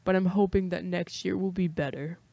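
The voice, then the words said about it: Imitates another person's voice. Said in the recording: “my impression of him”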